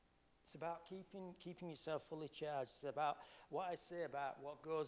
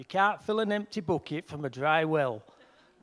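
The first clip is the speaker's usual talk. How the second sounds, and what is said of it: Yorkshire accent. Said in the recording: “I could do that in my Yorkshire accent.”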